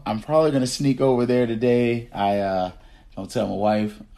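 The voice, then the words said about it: Gravelly, slightly hoarse voice. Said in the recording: “Y'all can probably hear it in my voice. I got a little bit of gravel going on there”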